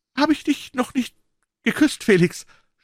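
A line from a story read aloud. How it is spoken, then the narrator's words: Stammering. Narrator (German): stammelte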